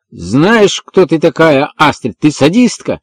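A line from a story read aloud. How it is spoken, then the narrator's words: Angry shout. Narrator (Russian): с гневом прокричал Эванс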